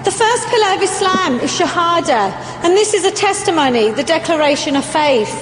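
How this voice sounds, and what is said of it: London English accent. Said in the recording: “I actually come from the UK. I'm a Londoner. Maybe you can tell by my accent.”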